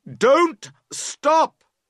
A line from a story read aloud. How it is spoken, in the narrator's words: you cry loudly